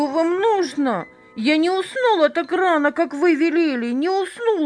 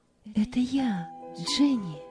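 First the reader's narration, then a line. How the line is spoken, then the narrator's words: Quiet. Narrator (Russian): тихо сказала Роза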